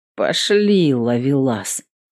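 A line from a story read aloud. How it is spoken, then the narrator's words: Ironic mutter. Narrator (Russian): иронично буркнула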